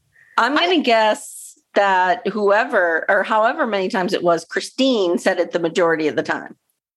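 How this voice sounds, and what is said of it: Congested, allergy-affected voice. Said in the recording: “My voice is like, ... it's allergy season here in the Northeast.”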